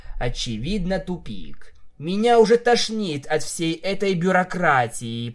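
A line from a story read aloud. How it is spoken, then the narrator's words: Through gritted teeth. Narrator (Russian): процедила Винил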